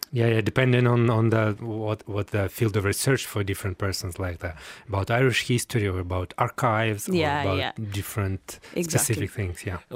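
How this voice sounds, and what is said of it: Ukrainian-accented English. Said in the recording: “people will have picked up, from your accent ... you are from another part of the world. In fact, you're from Ukraine.”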